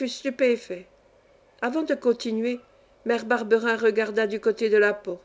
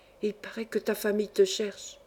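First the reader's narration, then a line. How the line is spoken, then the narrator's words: Low voice, smiling. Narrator (French): Rassurée, à mi-voix, avec le sourire sur le visage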